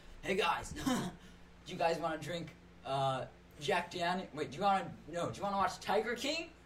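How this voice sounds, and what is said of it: Frat boy California surfer voice. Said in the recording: “your accent or like, sorry, your impression of a frat boy ... California surfer a little bit ... Or like a 2000s voice”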